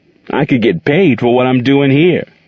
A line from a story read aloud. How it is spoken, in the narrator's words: he said, laughing